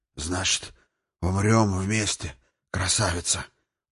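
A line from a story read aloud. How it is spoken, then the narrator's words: Hoarse rasp. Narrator (Russian): прохрипел он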